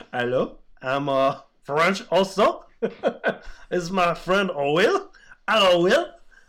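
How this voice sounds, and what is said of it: Comical put-on French accent. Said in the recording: “comical French accent ... Do you do a French accent?”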